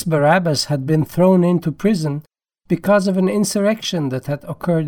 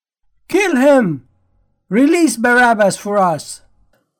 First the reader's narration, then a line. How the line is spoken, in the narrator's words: the whole crowd cried out together